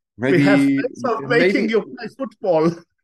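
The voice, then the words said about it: Terrible stereotypical German accent. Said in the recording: “stereotypical, a low level German accent ... our terrible impressions”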